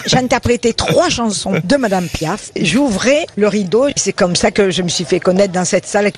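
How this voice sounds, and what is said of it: Slight Avignon accent. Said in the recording (French): “son petit accent d'Avignon”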